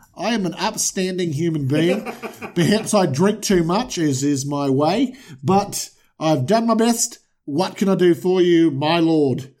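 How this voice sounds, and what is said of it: Put-on accent. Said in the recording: “I love that accent.”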